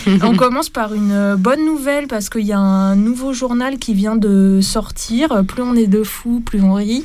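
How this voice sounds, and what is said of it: Toulouse regional French accent. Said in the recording (French): “c'est avec mon accent, mais comme c'est toulousain”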